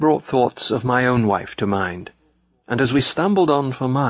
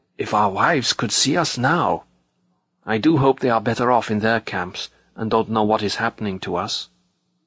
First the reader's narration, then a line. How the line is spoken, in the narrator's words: Hiding his mouth behind his upturned collar, the man marching next to me whispered suddenly